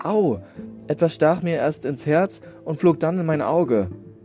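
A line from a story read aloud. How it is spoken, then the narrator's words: Small child calling out. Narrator (German): Da rief der Kleine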